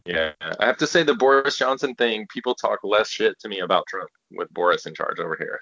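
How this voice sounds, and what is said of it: American accent. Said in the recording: “the first thing when they heard my accent was like, "You're an American”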